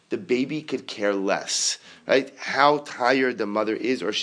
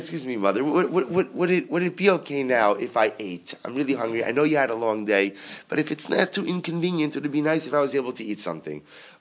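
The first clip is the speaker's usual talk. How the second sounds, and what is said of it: Put-on proper English accent. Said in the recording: “Everything is always like with a proper English accent”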